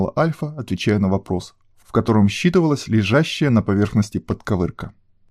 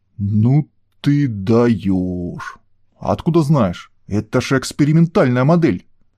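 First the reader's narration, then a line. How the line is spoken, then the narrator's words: Deep stammering voice. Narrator (Russian): Немного заикаясь, пробасил он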